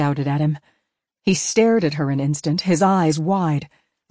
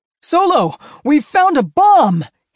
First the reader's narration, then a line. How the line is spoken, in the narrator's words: he yelled at Han